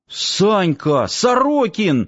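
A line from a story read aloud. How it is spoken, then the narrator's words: Exclaimed. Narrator (Russian): воскликнул Саам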